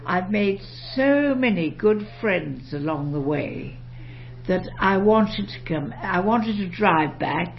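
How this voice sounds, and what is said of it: British-sounding English accent. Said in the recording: “by your accent, it doesn't sound like you were born here. ... Have such a beautiful English accent. ... You just sound so British.”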